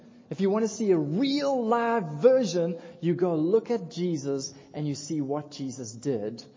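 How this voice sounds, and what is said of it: Usual voice. Nothing is said of it.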